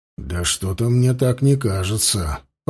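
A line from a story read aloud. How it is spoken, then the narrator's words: Muttered. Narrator (Russian): пробормотал Дмитрий в ответ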